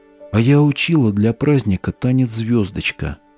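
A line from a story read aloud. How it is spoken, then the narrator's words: Sudden whisper. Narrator (Russian): вдруг шепотом сказала Ветка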